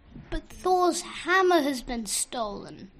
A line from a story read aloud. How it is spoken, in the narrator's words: Loki whined